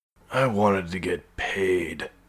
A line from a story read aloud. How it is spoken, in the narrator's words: he groaned